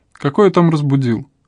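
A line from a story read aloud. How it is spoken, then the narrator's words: Strained joking. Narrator (Russian): Вадим Юрьевич хмыкнул и натужно отшутился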